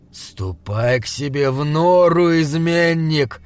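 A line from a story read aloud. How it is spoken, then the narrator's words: Angry growl. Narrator (Russian): зарычал он, когда Джошуа вырвал у него руку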